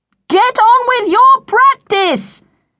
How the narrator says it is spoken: yelled her mother through the door

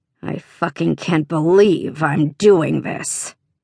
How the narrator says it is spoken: he growled again

